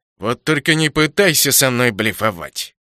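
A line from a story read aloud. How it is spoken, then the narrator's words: Dismissive snort. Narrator (Russian): фыркнул Флектор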